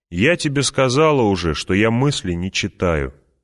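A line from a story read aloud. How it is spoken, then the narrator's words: Plain. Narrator (Russian): ответила Алия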